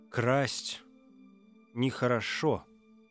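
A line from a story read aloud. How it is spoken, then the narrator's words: Plain. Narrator (Russian): сказал он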